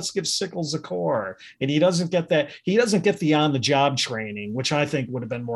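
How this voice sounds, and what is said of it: Usual voice. Nothing is said of it.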